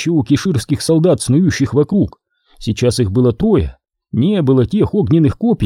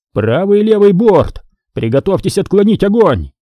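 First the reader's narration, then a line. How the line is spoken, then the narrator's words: Male shout. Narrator (Russian): закричал он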